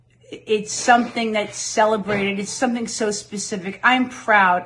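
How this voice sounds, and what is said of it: New York accent. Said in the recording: “Best New York Accent contest ... oh my God, you're so New York ... I'm a native New Yorker”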